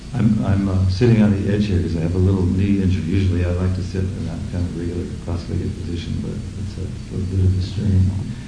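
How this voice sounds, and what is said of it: American accent. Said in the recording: “I guess I'm the third American to speak in a row ... I hope you'll forgive the accent.”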